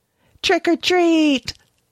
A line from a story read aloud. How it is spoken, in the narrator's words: shouted, smiling happily